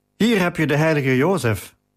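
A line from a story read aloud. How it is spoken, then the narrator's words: Calling out. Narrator (Dutch): riep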